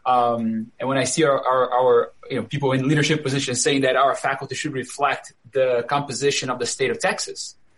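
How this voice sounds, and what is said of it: Brazilian accent. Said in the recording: “I'm Brazilian by origin. I grew up in Brazil. I moved to the U.S. as 26 years old, I think, so you can maybe tell by my accent.”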